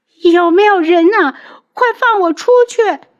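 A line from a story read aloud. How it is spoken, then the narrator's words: Shouting. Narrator (Chinese): 他喊的声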